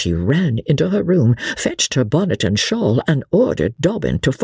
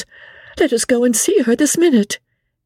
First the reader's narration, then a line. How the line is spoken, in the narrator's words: Emmy cried out